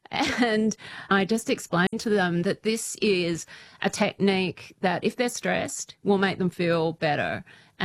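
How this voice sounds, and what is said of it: Noticeable foreign accent. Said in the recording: “They're always fascinated by my accent ... did you know Steve Irwin”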